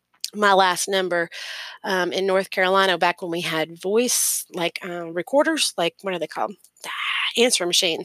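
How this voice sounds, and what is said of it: Southern US accent. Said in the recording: “a Southern accent that absolutely drives my father fucking bonkers”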